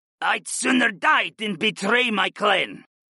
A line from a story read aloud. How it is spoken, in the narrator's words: the moose hissed